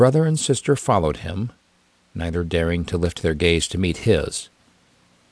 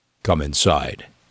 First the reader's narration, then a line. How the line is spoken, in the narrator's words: commanded in a low tone